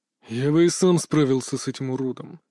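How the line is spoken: Gloomy declaration. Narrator (Russian): заявил он мрачно

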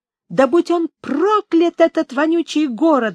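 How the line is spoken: Angry exclamation. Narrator (Russian): гневно воскликнул

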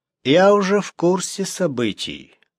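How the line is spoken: Calm reply. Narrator (Russian): спокойно ответил новоприбывший

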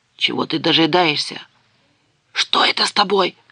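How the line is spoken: Furious whisper. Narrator (Russian): яростно прошептал Гимли

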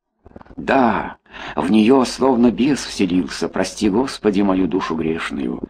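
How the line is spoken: Plain. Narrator (Russian): сказал другой голос

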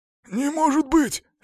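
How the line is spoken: Hoarse repetition. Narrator (Russian): сипло повторил он

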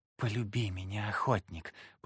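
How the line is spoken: Mermaid whispering. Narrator (Russian): прошептала русалка

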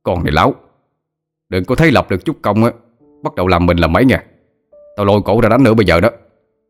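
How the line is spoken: Shouting. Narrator (Vietnamese): Hai nhân quát lên

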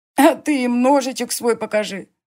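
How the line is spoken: Laughing boy. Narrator (Russian): засмеялся мальчишка

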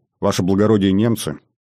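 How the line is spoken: Quiet answer. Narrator (Russian): Тихо он ответил

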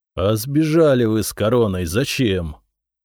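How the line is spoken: Weary question. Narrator (Russian): Устало спросил Зотов

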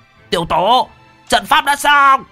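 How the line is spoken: Old man shouting. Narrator (Vietnamese): Lão hét lên

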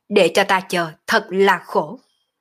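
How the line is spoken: Laughing, shouting loudly. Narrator (Vietnamese): Động Vô Thường cười ha ha quát to

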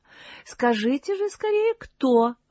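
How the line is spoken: Exclaimed. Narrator (Russian): воскликнула Эльза, падкая на светские развлечения

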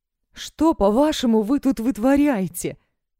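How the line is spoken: Sudden hysterical female shriek. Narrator (Russian): Внезапно взвизгивает истеричный женский голос

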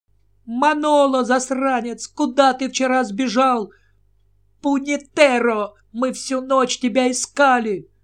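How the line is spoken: Piercing scream. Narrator (Russian): Она пронзительно закричала

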